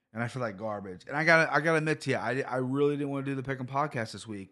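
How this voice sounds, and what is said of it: Sick, strained voice. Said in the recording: “my voice has not gotten much better. It really hasn't. I feel worse. Voice might sound a little better. I'm coughing like a I'm coughing up a storm.”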